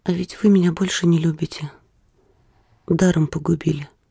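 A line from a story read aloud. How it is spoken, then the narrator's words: Calm. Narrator (Russian): спокойно сказала она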